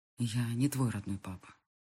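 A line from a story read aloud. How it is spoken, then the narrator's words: Quiet voice. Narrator (Russian): тихо говорит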